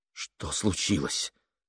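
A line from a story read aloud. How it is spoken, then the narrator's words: Forced, strained words. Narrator (Russian): выдавил он из себя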